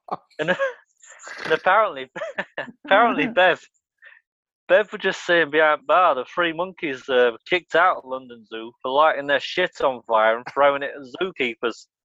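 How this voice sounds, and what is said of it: Attempted Blackpool accent, slipping. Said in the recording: “I don't know what's happened to the accent. I told you I couldn't do Blackpool.”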